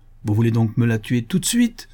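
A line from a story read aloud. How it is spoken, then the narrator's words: Exclaimed. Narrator (French): s'écria madame Lacombe, en faisant un effort désespéré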